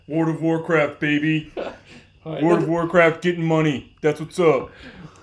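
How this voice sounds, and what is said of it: Bad impersonation of a friend. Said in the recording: “That's a bad impersonation. ... Yeah, that was really bad.”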